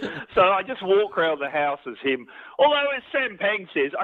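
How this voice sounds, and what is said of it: Usual voice. Nothing is said of it.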